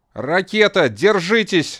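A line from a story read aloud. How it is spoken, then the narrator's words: Pilot shouting. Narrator (Russian): закричал пилот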